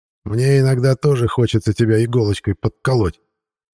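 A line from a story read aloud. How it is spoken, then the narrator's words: Grumbling. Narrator (Russian): проворчал Семичастный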